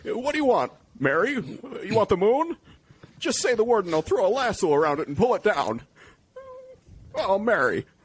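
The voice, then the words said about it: Good Jimmy Stewart impression. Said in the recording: “That's Jimmy a pretty good impersonation.”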